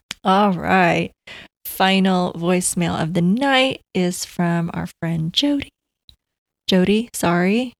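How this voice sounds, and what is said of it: Strained, fading voice. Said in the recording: “My voice is going out.”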